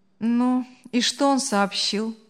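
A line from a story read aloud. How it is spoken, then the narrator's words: Indifferent. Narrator (Russian): безразличным голосом спросил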